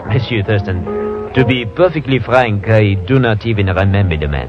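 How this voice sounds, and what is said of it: Fake French accent. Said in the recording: “That French accent of yours is as phony”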